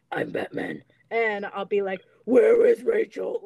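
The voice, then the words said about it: Batman impression voice. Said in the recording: “I do like voices... do my Batman voice”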